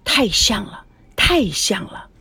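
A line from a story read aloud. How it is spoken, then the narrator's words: Soft, repeated muttering. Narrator (Chinese): 苏梅 嘴里不停的小声咕噜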